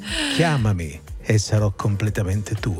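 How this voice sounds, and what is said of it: Sexy, seductive voice. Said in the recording (Italian): “faccio io la voce sexy”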